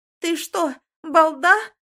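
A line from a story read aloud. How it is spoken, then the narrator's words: Mother shrieking. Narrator (Russian): взвизгивает мама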